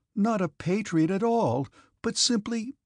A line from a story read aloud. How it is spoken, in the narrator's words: replied in an injured tone